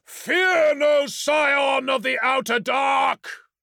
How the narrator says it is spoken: roared

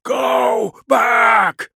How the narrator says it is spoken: screamed, his death shriek

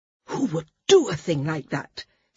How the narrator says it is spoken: Sina demanded, her voice shocked

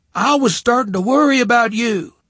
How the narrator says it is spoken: Sadie shouted over the music

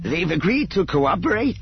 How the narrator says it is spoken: Ebrahim asked eagerly

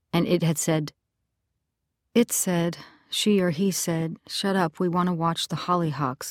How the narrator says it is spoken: Lisey murmured

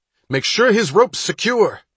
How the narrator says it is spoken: he shouted to the first rescuer

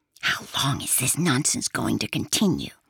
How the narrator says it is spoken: Perry asked Yorvil discreetly, to whisper into her ear

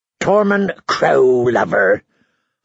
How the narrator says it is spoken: Harmer sneered

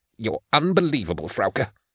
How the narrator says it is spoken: he hissed

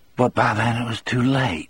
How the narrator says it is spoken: Brutal murmured

